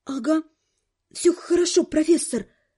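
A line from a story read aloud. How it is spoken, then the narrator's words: Hoarse strained voice. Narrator (Russian): сипло выдавила я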